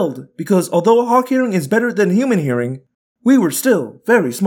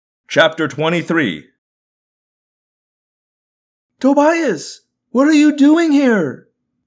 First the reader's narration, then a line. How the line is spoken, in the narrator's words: I yelled in sheer joy at seeing him